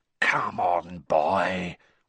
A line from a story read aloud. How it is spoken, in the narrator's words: whispered Moody